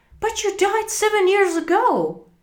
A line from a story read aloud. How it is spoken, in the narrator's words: cried Scrooge